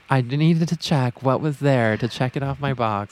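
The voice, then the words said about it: Poor impression of Carrie Bradshaw. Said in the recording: “I could totally see Carrie leaving and then being like ... that was a horrible impersonation”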